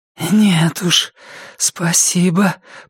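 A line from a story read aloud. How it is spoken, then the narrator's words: Rasped. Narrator (Russian): прохрипела она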